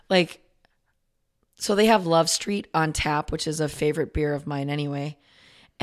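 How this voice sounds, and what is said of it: Hoarse, strained voice. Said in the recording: “my voice is hashed ... I actually sound relatively like myself today. It's bad.”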